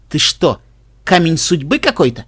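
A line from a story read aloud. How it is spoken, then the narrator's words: Amused snort. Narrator (Russian): Хмыкнув, Генри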